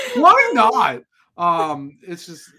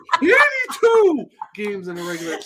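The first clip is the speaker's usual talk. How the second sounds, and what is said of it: Imitates another person's voice. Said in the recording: “He says it like that too. ... That was the best impression I've ever heard.”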